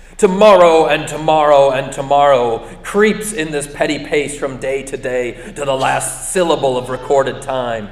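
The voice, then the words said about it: Theatrical Shakespearean recitation voice. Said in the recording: “I'll put on my Shakespearean voice.”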